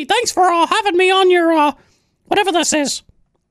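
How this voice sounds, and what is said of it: Mickey Mouse impression. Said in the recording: “Oh, it's Mickey ... it's just a sample of some of the voices I do ... You could be a character for Disneyland”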